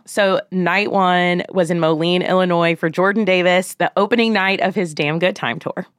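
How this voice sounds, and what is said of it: Slightly scratchy hoarse voice. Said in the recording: “my voice sounds a little scratchy today. It's because I have been screaming”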